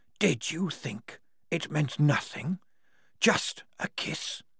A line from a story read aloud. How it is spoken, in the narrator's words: The whispered words washed against the walls like surf and came back stronger in harmonies